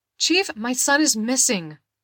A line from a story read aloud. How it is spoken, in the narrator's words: Victoria shouted to be heard over the sounds around them